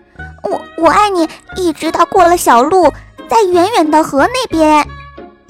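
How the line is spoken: Shouting small rabbit. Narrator (Chinese): 小兔子大叫

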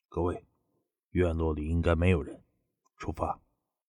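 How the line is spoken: Low voice. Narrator (Chinese): 他当即低声道

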